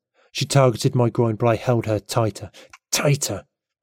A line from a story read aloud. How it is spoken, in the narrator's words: I snarled, gnashing my teeth